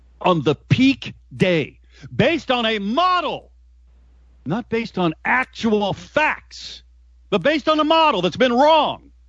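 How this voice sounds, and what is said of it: Yelling, raised angry voice. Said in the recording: “I'm sorry for yelling.”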